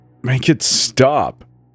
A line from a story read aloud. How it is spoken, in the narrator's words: he muttered, his voice cracking